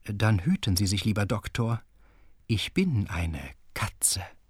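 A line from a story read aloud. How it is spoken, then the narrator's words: Heavily veiled voice. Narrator (German): erklärte mit dicht verschleierter Stimme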